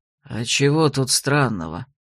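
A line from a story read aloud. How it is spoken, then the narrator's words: Muttered. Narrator (Russian): буркнул Гурант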